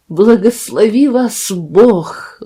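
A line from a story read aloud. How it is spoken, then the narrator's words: Trembling exclamation. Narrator (Russian): воскликнул Жан Мерль дрожащим голосом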